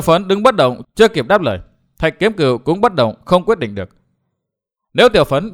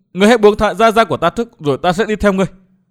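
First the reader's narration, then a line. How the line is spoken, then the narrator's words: Trembling voice. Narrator (Vietnamese): Tiểu Phấn cất giọng run run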